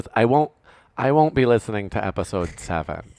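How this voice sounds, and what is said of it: Put-on mom character voice. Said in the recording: “even though I'm giving you this voice. This is not what my mom sounds like, but this is my mom voice for today.”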